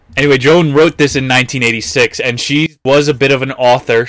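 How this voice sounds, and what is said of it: New Jersey accent. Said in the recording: “this is probably going to be nails on a chalkboard for some people, because I have a Jersey accent”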